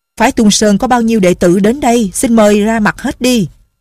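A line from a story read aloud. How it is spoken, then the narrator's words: Loud, shaking with anger. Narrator (Vietnamese): Lưu Chính Phong giận đến run người, lớn tiếng nói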